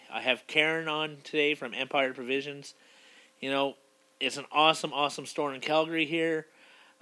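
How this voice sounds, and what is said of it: Scratchy voice from a cold. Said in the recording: “tell by my voice, it's a little bit scratchy, I have a little bit of cold”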